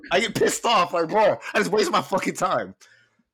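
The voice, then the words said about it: Yelling angrily. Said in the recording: “I should stop yelling.”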